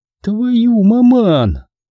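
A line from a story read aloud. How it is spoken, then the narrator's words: Pleased cooing. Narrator (Russian): довольно проворковала Скарли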